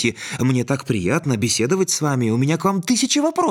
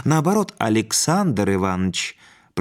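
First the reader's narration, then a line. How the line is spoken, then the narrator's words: Gentle, kindly. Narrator (Russian): произнес незнакомец, ласково улыбаясь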